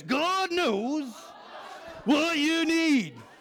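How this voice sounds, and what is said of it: Emphatic preacher-style voice. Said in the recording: “use your preacher voice.”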